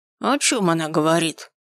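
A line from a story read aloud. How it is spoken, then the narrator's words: Old man, menacing, furious. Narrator (Russian): Грозно выдал старичок, закипая от бешенства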